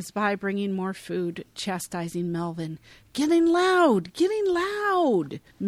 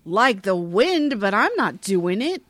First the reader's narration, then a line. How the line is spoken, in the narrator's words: Melvin bellows